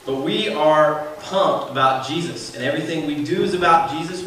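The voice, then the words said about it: Southern US accent, Georgia. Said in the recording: “my southern accent. I'm a Georgia boy.”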